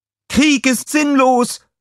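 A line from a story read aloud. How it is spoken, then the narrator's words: Girl calling out. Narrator (German): rief ein Mädchen mit Blumen in den Haaren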